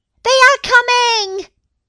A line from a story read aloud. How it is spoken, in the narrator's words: shouted the kids